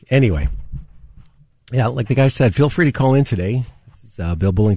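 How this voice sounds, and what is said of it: Hoarse voice. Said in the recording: “Little hoarse this morning ... Wake up and can barely talk.”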